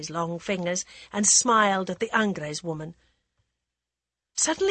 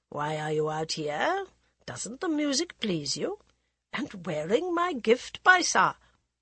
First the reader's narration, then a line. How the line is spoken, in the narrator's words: the laughter in Arun Roy's voice